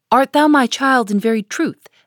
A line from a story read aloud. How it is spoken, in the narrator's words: asked Hester